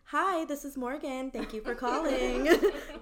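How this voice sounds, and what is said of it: Put-on customer-service phone voice. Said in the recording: “answer the phone in my like Karin voice”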